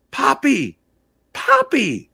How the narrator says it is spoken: our two-year-old happily called out several times

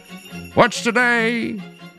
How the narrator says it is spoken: cried Scrooge, calling downward

